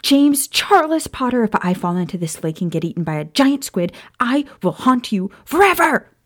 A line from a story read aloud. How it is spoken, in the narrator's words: Maya screamed